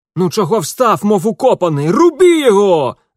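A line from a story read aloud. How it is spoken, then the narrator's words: Yelled. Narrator (Russian): завопил оттертый к стене кудлатый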